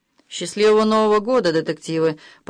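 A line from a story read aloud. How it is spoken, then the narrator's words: Gloomy. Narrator (Russian): мрачно сказал Джимми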